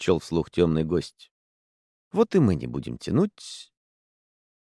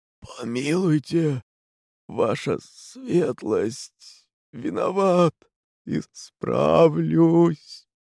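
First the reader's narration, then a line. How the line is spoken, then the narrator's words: Barely audible rasp. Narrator (Russian): Страдалец Терентий прохрипел еле слышно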